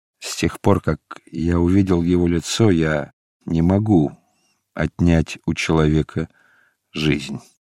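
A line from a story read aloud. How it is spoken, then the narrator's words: Quiet. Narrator (Russian): ответил Варава тихо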